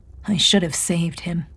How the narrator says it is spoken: he said quietly

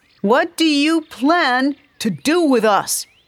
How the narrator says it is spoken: Nico shouted

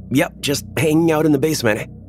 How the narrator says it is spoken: I yell back up the stairs

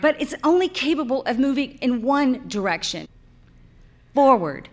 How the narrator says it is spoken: cried

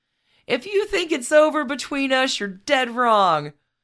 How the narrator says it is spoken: Carmine was heard shouting at Victoria

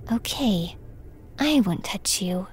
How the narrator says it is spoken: whispered

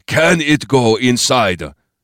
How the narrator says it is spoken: Bopan said sharply

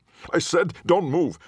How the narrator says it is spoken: Officer McGregor shouted as they all took another step toward him

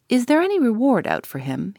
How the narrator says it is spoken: he asked eagerly

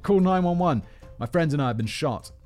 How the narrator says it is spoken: He shouted

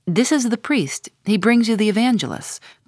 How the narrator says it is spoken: said Don Sebastian, gravely

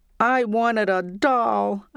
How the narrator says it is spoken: cried

